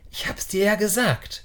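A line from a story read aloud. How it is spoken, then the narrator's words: Whispered. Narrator (German): Ben flüsterte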